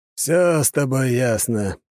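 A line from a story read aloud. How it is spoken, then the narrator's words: Drawling. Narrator (Russian): протянул Лажон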